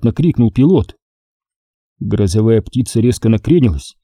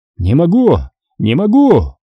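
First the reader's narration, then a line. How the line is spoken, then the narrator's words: Pilot screaming. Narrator (Russian): закричал пилот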